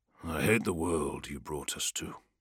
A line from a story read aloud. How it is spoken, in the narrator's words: said under his breath